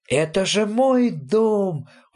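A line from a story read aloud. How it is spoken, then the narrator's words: Overjoyed exclamation. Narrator (Russian): вне себя от радости воскликнул папа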